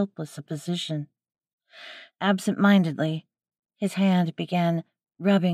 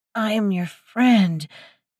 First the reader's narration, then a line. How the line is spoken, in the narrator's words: groaned out